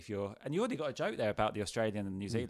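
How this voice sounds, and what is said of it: Northern Irish Belfast accent. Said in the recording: “because my accent, I feel like I need to address it ... you can tell from my accent ... I've got this accent. I need to tell you I'm from Belfast”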